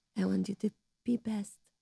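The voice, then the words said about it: Imitates another person's voice. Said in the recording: “That's not a bad impression.”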